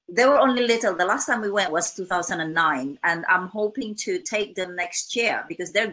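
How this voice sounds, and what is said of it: Non-native English accent. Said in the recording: “sometimes my daughter makes fun of my accent... I wasn't born in England... I speak different language, you know, two different languages... my accent is unique to me”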